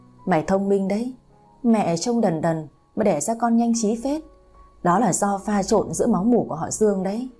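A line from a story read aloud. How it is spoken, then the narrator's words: Smiling teasing grandmother. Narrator (Vietnamese): Bà nội cô mỉm cười đưa đà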